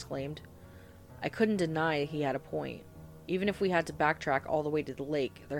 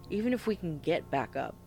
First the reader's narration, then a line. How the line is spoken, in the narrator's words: Tony replied